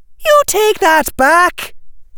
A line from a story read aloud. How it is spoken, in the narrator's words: shouted Tracy